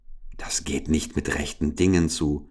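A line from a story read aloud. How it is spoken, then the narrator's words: Whispering. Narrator (German): flüsterte Richard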